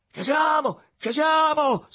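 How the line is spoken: Shouting, approaching. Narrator (Italian): si mise a gridare, appressandosi

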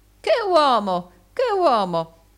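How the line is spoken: Calm exclamation, no anger. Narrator (Italian): non mostrò alcun indizio di collera e si contentò di esclamare come prima

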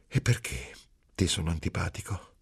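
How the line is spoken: Soft affectionate laugh, asking. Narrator (Italian): Lino ridere piano, affettuosamente, e poi domandare

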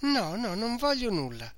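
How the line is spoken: Weak, sleepy voice. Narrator (Italian): rispose questa, con voce fiacca e come sonnolenta

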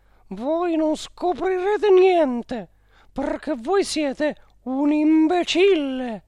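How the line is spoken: Shrill voice. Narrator (Italian): con voce stridula gli disse

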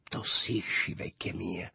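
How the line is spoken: Smiling murmur. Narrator (Italian): mormorò Lulù sorridendomi

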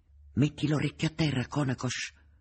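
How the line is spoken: Whispered order. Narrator (Italian): ordinò sottovoce Voca

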